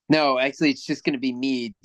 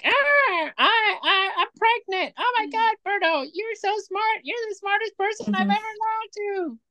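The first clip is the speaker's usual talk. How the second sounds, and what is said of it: Imitates another person's voice. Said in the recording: “doing your voice”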